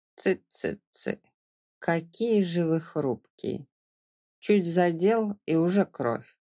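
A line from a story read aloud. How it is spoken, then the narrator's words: Plain. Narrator (Russian): сказал он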